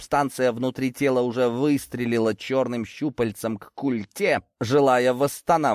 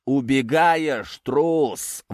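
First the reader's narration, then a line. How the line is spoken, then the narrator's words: Smug roar. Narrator (Russian): взревел монстр, в этом реве была куча самодовольства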